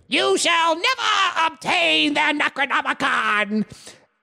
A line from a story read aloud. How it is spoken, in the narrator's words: screamed